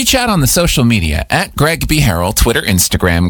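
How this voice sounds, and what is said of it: Usual voice. Nothing is said of it.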